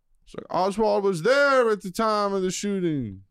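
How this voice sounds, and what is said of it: Poor imitation of New Orleans accent. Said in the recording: “he's got this horrible New Orleans accent”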